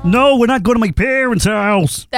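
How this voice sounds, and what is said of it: Ray Romano impression. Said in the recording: “very good Ray Romano impression ... That actually sounds more like Rick Romano to me.”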